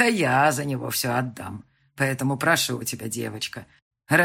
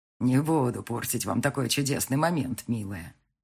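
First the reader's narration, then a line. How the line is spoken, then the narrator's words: Soft, smiling. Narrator (Russian): мягко улыбнулась она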